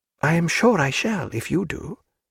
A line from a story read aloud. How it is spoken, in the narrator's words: said Diana, in a doubtful voice